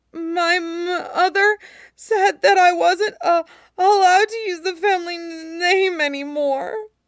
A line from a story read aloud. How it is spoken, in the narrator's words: Luo Jiahui sobs